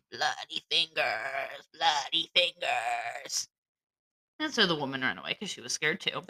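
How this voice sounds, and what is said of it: Ghostly moaning voice. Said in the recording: “That's not really a moan. ... I'm doing a voice”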